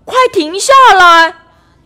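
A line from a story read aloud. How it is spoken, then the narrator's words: Loud shout. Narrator (Chinese): 茉莉也大声地叫着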